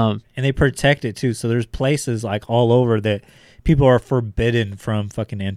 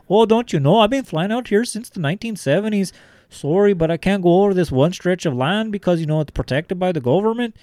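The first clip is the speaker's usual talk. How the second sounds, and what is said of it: Put-on Southern accent. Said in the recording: “I don't know why I'm giving him a southern accent because he's very much Canadian”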